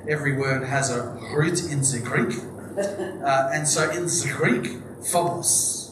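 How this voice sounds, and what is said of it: Put-on Greek accent. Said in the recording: “I'll stop the Greek accent.”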